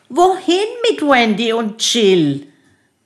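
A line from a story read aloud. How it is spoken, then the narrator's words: Called out. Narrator (German): Susanne rief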